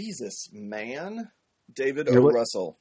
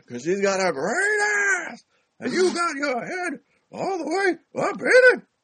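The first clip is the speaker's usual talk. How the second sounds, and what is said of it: Imitates another person's voice. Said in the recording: “do your Pacino ... That's the cadence I love.”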